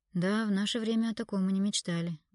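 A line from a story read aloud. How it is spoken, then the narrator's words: Sighing. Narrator (Russian): вздохнул Виктор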